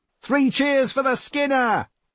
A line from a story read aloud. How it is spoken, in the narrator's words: shouted a voice behind him, Ted's